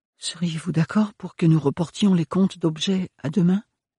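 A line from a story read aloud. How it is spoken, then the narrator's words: Timid question. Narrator (French): demanda-t-elle timidement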